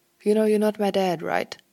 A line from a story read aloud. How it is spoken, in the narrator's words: he called